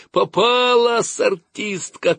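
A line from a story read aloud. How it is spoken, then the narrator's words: Shouting, boys. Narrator (Russian): кричали мальчишки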